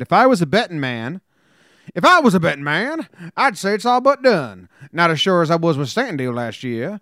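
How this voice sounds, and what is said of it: Old-timey put-on southern accent. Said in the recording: “What was that accent, though? ... That's Jim Leyritz after, like, so many beers. ... What was that old-timey southern accent that you gave Jim Leyritz?”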